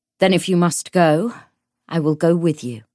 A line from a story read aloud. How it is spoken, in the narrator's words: he said